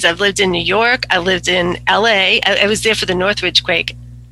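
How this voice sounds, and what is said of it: Boston accent. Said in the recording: “I detect an accent... I'm actually from Boston”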